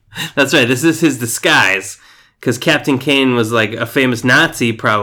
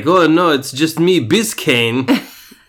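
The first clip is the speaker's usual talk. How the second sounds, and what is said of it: Good imitation of German accent. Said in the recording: “That's his German accent. ... That was spot on.”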